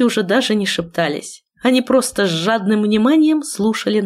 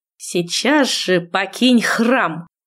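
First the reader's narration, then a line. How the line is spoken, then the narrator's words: Through gritted teeth. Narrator (Russian): процедила родительница сквозь зубы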